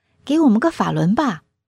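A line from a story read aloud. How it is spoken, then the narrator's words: Smiling. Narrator (Chinese): 我又笑着向师傅说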